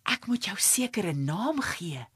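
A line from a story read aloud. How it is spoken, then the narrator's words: Whispered. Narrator (Afrikaans): fluister Zeldie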